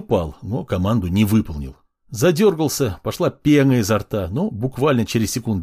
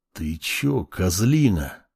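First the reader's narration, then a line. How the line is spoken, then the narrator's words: Hiss. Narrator (Russian): прошипел его товарищ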